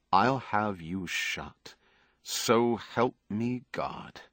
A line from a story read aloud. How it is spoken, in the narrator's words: said quietly